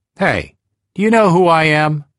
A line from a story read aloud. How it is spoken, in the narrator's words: I shouted in the driver's face